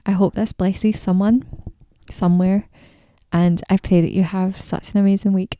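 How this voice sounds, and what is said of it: Fast-talking speech with an accent. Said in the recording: “I was going to talk slower, but I think I've actually talked even faster ... my accent and to my speed and tone of voice”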